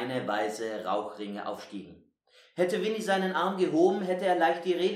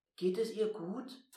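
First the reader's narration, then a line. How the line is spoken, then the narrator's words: Quiet question. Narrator (German): fragte er leise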